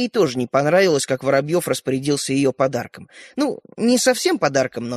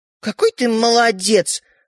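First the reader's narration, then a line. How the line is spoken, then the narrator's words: Offended. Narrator (Russian): обиженно сказала Ариша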